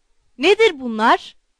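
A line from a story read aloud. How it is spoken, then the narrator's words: Shouting. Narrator (Turkish): diye bağırdı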